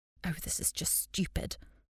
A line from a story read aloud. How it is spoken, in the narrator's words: I mumbled under my breath